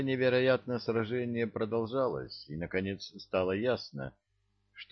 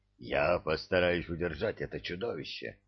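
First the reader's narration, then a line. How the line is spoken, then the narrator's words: Growling with groans, curses. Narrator (Russian): прорычал мой переводчик, перемежая свои слова стонами и ругательствами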